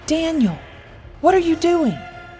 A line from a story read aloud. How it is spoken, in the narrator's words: Mary cried out in horror as she saw the glint of the blade in his hand